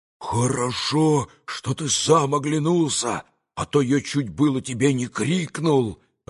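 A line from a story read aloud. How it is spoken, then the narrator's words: Joyful hurried whisper. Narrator (Russian): Радостно и торопливо прошептал ему Дмитрий Федорович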